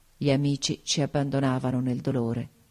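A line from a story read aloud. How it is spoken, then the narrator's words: Murmured. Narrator (Italian): mormorai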